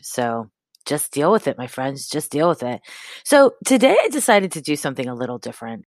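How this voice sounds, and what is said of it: Congested voice from a cold. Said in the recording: “I sound weird because I have a cold. No stinking cold is going to stop me from talking to you, but I sound weird”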